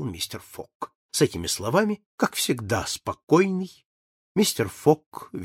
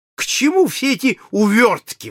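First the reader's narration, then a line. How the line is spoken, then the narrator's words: Exclaimed. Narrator (Russian): воскликнул полковник Проктор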